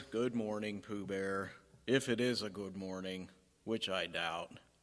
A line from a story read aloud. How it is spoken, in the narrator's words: Eeyore gloomily says